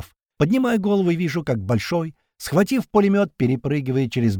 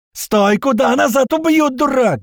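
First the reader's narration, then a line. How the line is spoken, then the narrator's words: Yelled. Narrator (Russian): заорали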